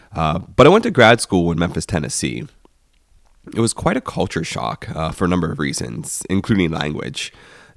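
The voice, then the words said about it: Rural Pennsylvania accent, slightly congested. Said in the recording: “I'm from rural Pennsylvania, if you're trying to nail down the accent, and I'm also fighting a cold right now”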